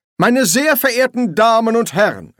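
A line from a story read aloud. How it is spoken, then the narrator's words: Call. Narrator (German): rief er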